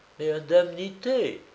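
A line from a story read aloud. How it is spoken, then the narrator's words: Timid repetition. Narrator (French): répéta timidement Dumollet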